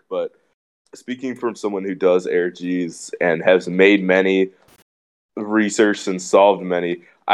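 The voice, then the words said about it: Sick, bad-sounding voice. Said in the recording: “my voice sounds bad. I'm kind of sick”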